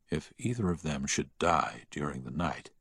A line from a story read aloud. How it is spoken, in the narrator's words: the doctor whisper